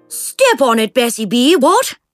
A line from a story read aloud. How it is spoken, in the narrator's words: Jemima Carstairs said cheerfully